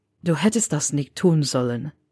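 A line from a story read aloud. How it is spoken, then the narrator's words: Muttered. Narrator (German): murmelte er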